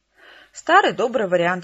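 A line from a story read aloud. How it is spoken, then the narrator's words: Cheerful. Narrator (Russian): весело ответил Кол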